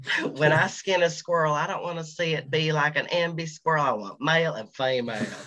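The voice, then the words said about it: Put-on hick accent. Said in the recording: “I try not to do a hick accent here”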